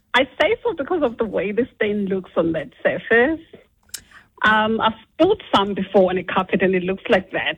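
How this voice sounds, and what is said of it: Zimbabwean English accent. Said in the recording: “A bit of an accent there ... I'm originally from Zimbabwe.”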